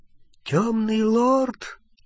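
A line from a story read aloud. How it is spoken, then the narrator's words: Frightened whisper. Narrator (Russian): испуганным шепотом продолжал Олливандер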